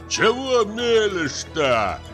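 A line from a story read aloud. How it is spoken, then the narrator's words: Shout. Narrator (Russian): закричал хозяин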